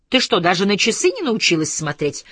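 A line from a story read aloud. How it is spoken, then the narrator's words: Irritated greeting. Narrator (Russian): раздраженно поприветствовал ее Бьюрман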